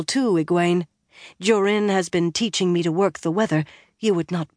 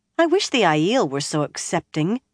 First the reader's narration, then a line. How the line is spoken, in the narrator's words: Egwene sighed